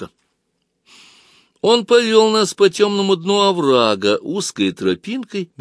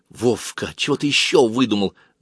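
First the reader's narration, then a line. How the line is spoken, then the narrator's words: Hissed. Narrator (Russian): зашипела Галка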